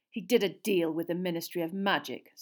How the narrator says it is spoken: said Sirius bitterly

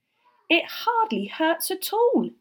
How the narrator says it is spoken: he cried

